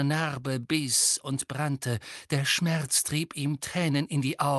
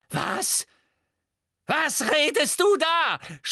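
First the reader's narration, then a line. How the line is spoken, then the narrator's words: Frightened scream. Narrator (German): schrie sie, und zum ersten Mal lag Angst in ihrer Stimme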